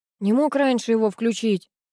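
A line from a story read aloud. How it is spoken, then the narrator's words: Grumbling. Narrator (Russian): ворчал Третьяков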